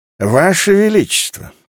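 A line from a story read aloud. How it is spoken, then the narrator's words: Toothless mumble. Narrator (Russian): прошамкал Дуаен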